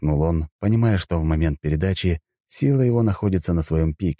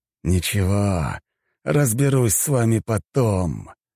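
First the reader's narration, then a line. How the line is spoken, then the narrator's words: Through gritted teeth. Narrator (Russian): процедил сквозь зубы мужчина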